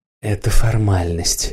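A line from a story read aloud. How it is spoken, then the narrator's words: Soft female voice. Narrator (Russian): мягко сказала женщина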